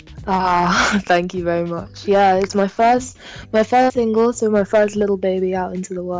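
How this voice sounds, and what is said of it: Slight accent. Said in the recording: “I detect a slight little accent there.”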